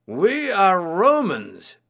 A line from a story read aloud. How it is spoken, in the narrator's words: the biggest man shouted